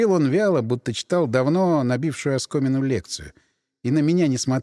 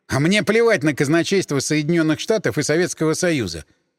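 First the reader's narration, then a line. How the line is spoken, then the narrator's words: Irritated interruption. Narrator (Russian): раздраженно перебил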